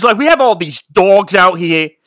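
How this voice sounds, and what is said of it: Put-on Boston accent. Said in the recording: “the guy talked like this the whole time ... it's more Boston than anything. But that's what he sounded like.”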